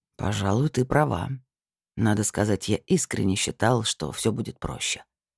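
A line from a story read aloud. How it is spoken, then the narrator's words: Sudden quiet. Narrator (Russian): вдруг тихо сказал Лиар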